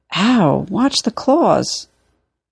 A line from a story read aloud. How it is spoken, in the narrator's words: provoking a yelp of